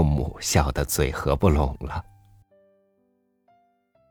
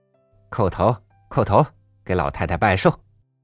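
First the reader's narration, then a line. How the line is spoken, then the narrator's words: Shouting. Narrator (Chinese): 表哥正在喊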